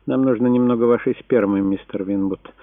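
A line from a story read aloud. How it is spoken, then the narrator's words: Calm nurse. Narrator (Russian): спокойно проговорила медсестра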